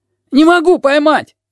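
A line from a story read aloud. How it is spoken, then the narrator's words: Shout. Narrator (Russian): крикнул сиамец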